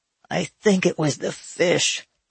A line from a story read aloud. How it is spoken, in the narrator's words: moaned